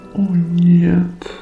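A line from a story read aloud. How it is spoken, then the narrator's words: Drawn-out, horrified, sad. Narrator (Russian): Протяжно и с некоторым ужасом довольно печально произнес Метатон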